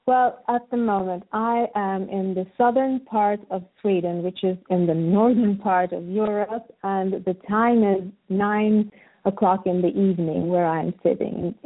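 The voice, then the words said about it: Beautiful foreign accent. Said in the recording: “that beautiful accent”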